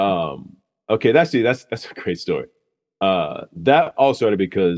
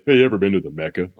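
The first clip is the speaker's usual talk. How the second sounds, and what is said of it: Imitates another person's voice. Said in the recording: “That impression was spot on, too.”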